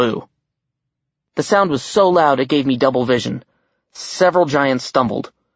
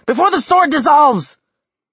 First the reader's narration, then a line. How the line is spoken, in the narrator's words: Sobbing, Randolph